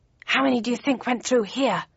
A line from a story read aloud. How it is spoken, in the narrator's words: asked Bowden in a whisper